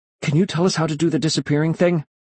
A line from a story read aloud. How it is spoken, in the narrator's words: I blurted out breathlessly